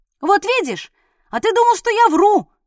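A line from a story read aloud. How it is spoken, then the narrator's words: Triumphant shout. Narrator (Russian): крикнул он Орлику, даже с некоторым торжеством в голосе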